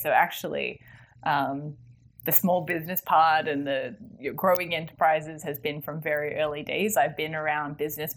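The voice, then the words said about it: Australian accent with American coloring. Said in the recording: “my funny accent is Australian, so and it's also Australian because it's coloured ... I sound Australian. When I go home, my mum says, "God, you sound American."”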